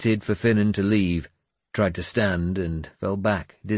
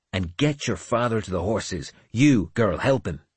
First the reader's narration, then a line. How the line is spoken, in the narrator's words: Finan ordered him sharply